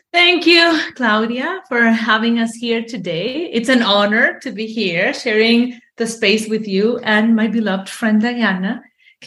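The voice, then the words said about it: Colombian accent in English. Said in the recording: “is from Colombia, just like me. And I hear that accent”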